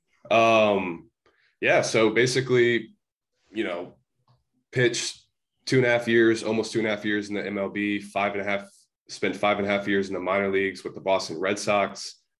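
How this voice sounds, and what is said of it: Congested, slightly weird-sounding voice. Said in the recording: “I got a like sinus thing, so if I sound a little weird”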